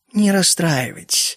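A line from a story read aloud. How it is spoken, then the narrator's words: Calm remark. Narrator (Russian): заметила она спокойно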